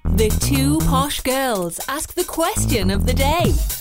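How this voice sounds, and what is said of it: Exaggerated posh accent, badly done. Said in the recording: “Bad accent. ... posh”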